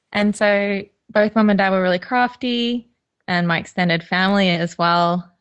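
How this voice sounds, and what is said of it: Australian accent. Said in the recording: “you can probably tell from my accent, I'm not from the UK ... born and bred in Queensland in Australia”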